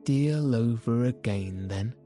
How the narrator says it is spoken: said Phileas Fogg

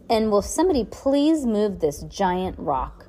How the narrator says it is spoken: Heidi grumbled

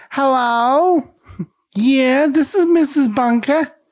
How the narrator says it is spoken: Edith cheerfully answers the phone with

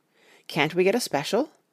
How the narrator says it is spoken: asked Lord Godalming

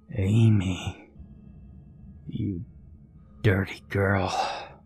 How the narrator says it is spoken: he hissed

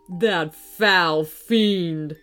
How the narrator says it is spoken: spat the gruff man

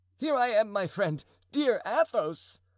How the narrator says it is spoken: cried D'Artagnan, in a faltering voice and almost staggering from agitation

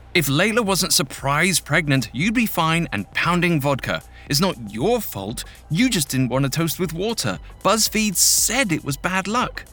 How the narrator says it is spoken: A voice in her brain yelled

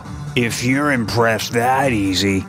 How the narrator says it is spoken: he slurred

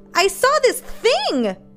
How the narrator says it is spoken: half screamed

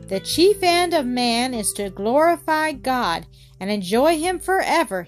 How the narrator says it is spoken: he shouted

